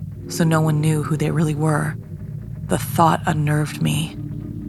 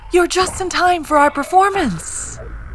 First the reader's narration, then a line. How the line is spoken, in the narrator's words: the ringmaster said, his lips stretched over his yellowing teeth